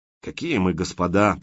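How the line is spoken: Grumbling. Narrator (Russian): пробурчал Громов

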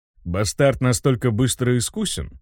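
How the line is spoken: Calmer question from darkness. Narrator (Russian): Уже более спокойно спросил голос из темноты

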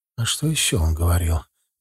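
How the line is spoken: Mother's soft insistent question. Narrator (Russian): мягко, но настойчиво спросила мать

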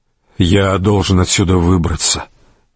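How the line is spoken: Quiet. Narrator (Russian): тихо проговорил Рейнован

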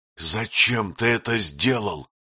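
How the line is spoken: Restrained angry hiss. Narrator (Russian): прошипел Этьен, еле сдерживаясь

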